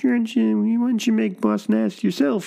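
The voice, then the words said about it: Imitates another person's voice. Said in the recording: “he does George's voice ... does a George Lucas impression? ... I'm doing a bad George.”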